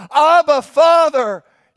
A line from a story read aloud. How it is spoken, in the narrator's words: cried out